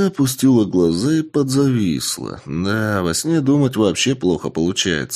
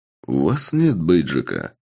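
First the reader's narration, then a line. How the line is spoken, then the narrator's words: Calm. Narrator (Russian): спокойно сказал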